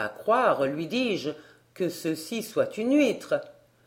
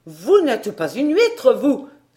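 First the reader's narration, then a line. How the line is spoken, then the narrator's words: Shrill yelping cry. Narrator (French): s'écria-t-il d'une voix glapissante comme la vague qui se brise sur les galets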